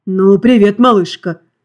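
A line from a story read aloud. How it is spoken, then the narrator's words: Slightly hoarse low greeting. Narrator (Russian): Немного хриплым и низким голосом поздоровался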